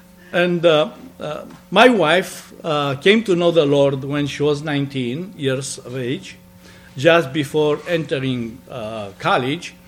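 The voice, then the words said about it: Romanian accent. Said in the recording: “born in Romania. You'll never guess from my accent.”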